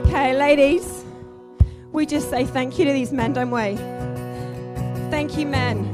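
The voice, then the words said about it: Hoarse, weak voice. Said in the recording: “I've lost my voice”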